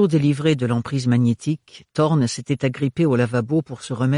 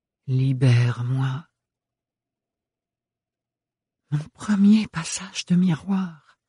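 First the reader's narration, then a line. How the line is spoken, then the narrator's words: Whispering. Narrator (French): chuchota-t-elle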